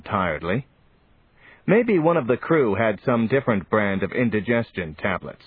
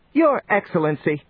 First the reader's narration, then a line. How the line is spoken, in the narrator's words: snapped the Tallnep